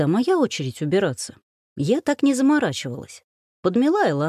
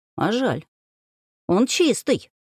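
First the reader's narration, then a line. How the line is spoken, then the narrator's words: Grumbled. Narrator (Russian): буркнула я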